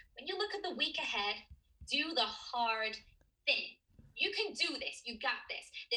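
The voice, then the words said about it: Rusty put-on American accent. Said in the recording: “you can do it in an American accent ... my American accent, it's a bit rusty”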